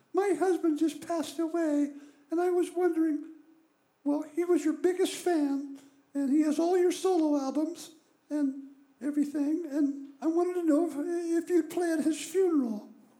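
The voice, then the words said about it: Very high-pitched woman's voice. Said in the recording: “a lady with a really high voice.”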